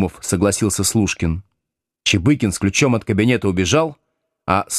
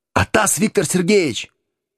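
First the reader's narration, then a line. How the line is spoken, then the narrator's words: Sudden shout. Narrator (Russian): вдруг крикнул Чебыкин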